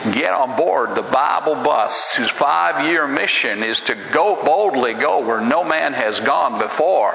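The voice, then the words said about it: Imitates a radio preacher's voice. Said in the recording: “do an impersonation”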